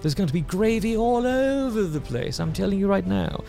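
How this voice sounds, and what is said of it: Put-on British accent. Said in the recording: “Why am I speaking in a British accent?”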